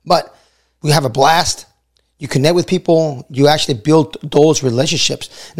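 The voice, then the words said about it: Hoarse, nearly lost voice. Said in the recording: “my voice is still, you know, still gone, right? It's barely coming back ... I keep losing my voice.”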